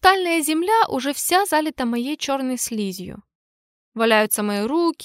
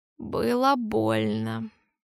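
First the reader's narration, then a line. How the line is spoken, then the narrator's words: Hoarse wheeze. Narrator (Russian): прохрипел я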